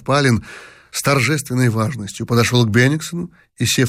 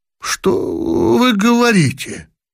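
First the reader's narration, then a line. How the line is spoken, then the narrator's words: Astonished exclamation. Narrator (Russian): в полном изумлении воскликнул Бенниксон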